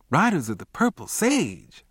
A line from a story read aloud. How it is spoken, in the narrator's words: I exclaimed